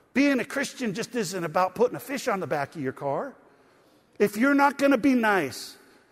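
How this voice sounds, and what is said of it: Loud, near-yelling preaching. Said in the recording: “I feel like I'm yelling”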